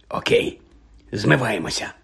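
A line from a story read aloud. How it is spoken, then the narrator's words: Whisper. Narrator (Ukrainian): прошепотів Джордж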